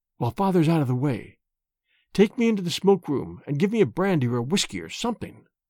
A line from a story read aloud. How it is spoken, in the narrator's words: he whispered